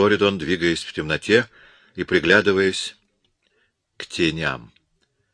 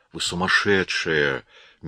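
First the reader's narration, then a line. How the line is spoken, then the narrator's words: Soft. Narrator (Russian): мягко проговорил он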